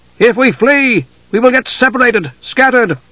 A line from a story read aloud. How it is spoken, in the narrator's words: their commander said to them, shouting his words to be heard over the crashing surf